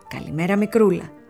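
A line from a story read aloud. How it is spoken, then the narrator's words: Cheerful greeting. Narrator (Greek): της λέει χαρούμενα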